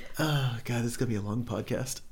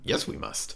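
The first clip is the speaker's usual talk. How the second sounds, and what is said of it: Yoda character voice. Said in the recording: “talk like Yoda ... my best Yoda impression”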